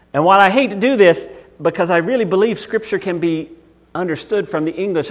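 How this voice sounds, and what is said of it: Southern American accent. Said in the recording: “because I'm Southern. I have a Southern accent.”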